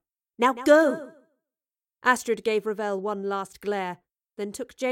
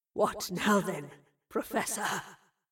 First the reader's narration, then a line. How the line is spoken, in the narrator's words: Revel rasped